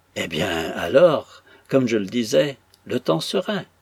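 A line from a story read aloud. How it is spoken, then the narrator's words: Exclaimed. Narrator (French): s'écria le capitaine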